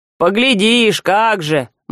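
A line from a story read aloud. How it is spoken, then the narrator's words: Gloomy grumble. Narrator (Russian): мрачно проворчал кто-то из мужиков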